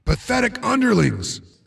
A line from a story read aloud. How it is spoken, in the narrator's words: I grunted, trying to remember the speech patterns of the comic book villains